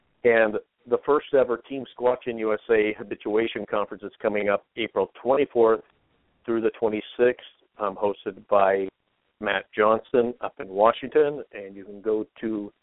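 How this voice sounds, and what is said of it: Slightly hoarse voice. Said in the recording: “I'm running a little hoarse today.”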